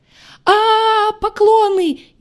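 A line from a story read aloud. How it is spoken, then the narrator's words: Shrieked. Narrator (Russian): взвизгнул Дорн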